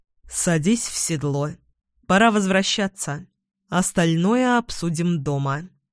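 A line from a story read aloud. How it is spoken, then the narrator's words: Calm. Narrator (Russian): Эдвин спокойно произнес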